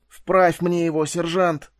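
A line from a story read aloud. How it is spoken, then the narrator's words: Groaning from the ground. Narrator (Russian): простонал Фаркосиган, не вставая с земли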